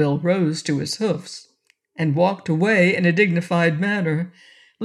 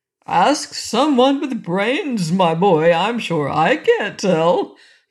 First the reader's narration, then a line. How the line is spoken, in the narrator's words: replied the king, bursting into one of his merry fits of laughter